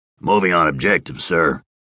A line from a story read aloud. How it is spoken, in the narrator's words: Baker rumbled